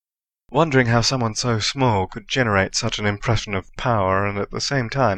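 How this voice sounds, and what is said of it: Usual voice. Nothing is said of it.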